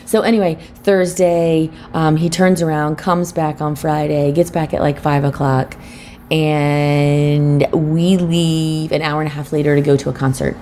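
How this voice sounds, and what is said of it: Tired voice. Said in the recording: “we ended up getting to bed at like 1:30 and I got up at 7:30 and that's why you can probably hear it in my voice”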